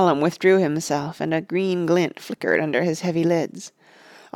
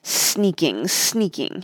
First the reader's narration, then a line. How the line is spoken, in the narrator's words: he hissed